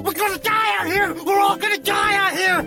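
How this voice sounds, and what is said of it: Yelling. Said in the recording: “40 minutes of yelling in the forest”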